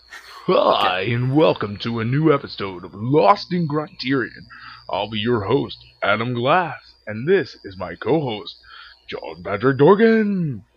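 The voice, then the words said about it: Radio announcer voice. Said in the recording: “You need a radio announcer voice.”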